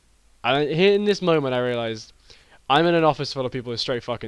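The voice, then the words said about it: Tired-sounding voice. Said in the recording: “my accent, which at the moment is very tired”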